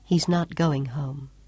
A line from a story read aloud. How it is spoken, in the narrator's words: she murmured, so low that he barely caught the words